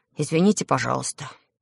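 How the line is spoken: Quiet. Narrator (Russian): тихо сказал

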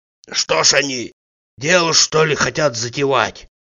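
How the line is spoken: Muffled question. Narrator (Russian): глухо спросил Тарантьев

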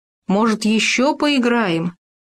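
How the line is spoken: Shouted after someone. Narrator (Russian): крикнул вдогонку Хома

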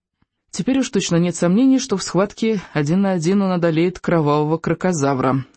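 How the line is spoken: Hysterical giggling remark. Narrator (Russian): заметил Рыбьенок, истерически хихикнув

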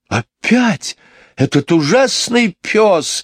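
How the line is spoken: Exclaiming. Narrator (Russian): воскликнула мисс Ларк

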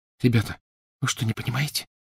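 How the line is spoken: Whisper. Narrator (Russian): прошептала Гермиона

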